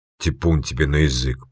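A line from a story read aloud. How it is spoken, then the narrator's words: Muttered. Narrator (Russian): пробормотал Вишняк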